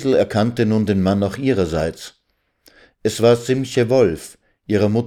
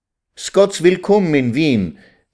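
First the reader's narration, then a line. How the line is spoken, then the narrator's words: Joyful call. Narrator (German): rief Vetter Simche freudig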